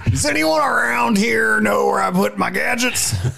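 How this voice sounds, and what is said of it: Poor John Goodman impression. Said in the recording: “That was the worst John Goodman impersonation... You sounded like Wolf the Muppet.”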